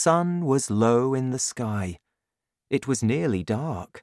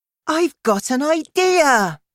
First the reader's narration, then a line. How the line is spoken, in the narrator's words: she cried excitedly